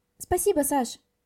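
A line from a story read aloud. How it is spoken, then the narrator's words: Quick reply. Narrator (Russian): Быстро ответила Ника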